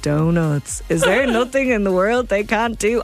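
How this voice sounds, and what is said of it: Imitation of Homer Simpson. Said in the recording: “my Homer impression is not good”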